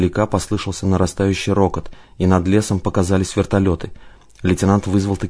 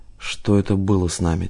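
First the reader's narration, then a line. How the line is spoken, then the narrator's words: Quiet question. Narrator (Russian): тихо спросил Одинцов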